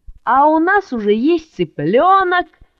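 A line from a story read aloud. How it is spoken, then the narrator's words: Shout. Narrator (Russian): закричал Мишка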